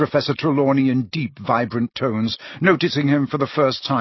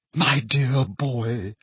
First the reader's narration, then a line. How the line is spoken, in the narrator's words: she said in a very carrying whisper